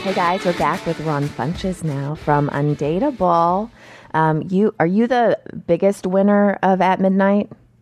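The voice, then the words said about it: Scratchy, hoarse voice. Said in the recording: “apologize for my voice. It's a little scratchy. I caught something my daughter had.”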